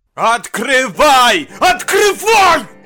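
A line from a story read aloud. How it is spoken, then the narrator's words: Shout. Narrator (Russian): Закричал доктор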